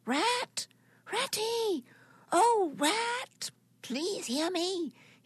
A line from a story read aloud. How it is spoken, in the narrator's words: he called out as loudly as he could